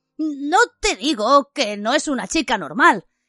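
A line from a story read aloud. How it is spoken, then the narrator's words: Exclaiming. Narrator (Spanish): exclamó Ron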